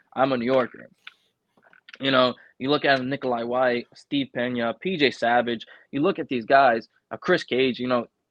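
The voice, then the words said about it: Thick New York accent. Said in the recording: “I have my thick ass New York accent when I say coffee”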